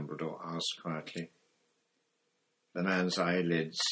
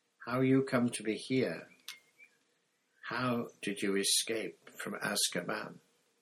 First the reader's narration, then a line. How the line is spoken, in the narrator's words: Crouch took a deep, shuddering breath, then began to speak in a flat, expressionless voice